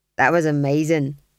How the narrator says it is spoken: said the fool

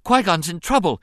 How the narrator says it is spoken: the boy blurted out, gasping for breath

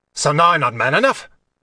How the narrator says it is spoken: snapped

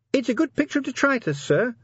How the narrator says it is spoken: said Sergeant Littlebottom nervously

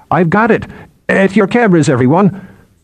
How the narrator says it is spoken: Bine croak

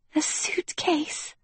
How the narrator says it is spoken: whispered Princess Uma

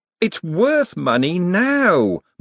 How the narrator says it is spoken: Moist wailed

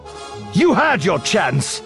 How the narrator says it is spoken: Kenobi snapped

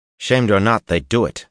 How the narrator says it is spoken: he snapped

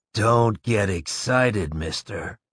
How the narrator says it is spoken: In a slow, quiet voice, the man said

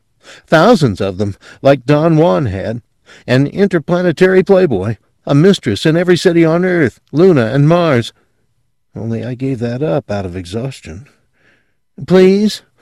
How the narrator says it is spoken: he begged

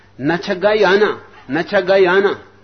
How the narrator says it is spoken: Foster attempted to make a good impression, exclaimed

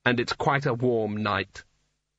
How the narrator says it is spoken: said one of the other wizards flatly

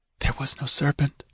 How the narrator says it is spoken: she whispered

